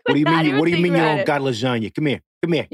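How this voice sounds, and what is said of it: Put-on New York accent. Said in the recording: “a little bit more of like a New York... twang... It's like full on ordering like his lasagna”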